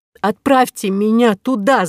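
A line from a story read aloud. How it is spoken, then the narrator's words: Shout. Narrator (Russian): закричала Кора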